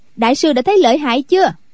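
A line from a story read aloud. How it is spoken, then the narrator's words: Loud laughter. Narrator (Vietnamese): Quách Tường cười to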